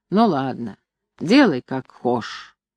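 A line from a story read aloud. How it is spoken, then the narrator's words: Grumbling. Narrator (Russian): ворчал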